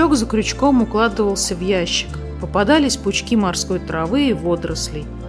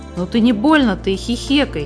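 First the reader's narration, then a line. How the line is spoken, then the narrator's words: Angry interruption by brother. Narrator (Russian): сердито оборвал ее брат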